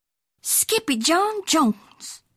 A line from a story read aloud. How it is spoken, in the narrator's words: exclaimed Mama